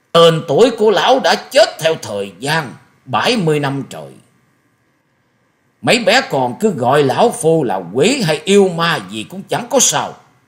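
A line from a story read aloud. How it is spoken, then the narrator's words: Shrill laugh, booming question. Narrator (Vietnamese): Quái nhân áo đen bỗng cười lên mấy tiếng the thé như quỷ rú trong đêm sâu, rồi ầm ầm cất tiếng hỏi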